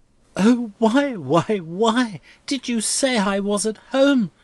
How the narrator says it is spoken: cried Rosa helplessly

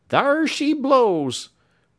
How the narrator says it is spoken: Matt cried

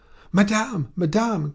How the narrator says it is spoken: cried Félicité, running in

